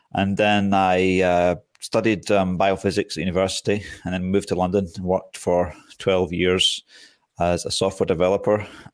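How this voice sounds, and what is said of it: Scottish accent. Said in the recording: “people were probably expecting a Greek accent, but it's a Scottish accent.”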